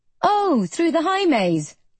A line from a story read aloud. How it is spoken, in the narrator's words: I exclaim